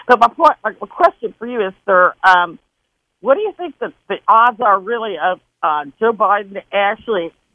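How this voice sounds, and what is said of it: Mixed Wisconsin and Southern accent. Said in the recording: “I got that the Wisconsin accent and a Southern accent mixed together. So it's weird.”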